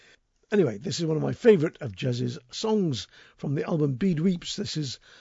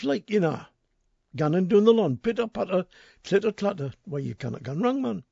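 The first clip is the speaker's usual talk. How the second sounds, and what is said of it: Attempted Geordie accent. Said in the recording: “the Geordie accent is a very sexy accent. I wish I could learn it myself”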